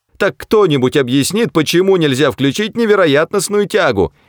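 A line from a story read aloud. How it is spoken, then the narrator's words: Hysterical shout. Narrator (Russian): истерически закричала Триллиан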